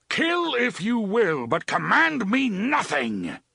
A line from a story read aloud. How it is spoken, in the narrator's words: the gunslinger roared